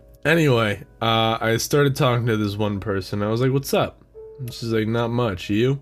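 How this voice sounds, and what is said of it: Usual voice. Nothing is said of it.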